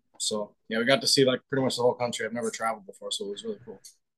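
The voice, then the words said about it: North Dakota accent. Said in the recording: “A lot of people say that I have an accent, but I know I do... I, I can already hear it.”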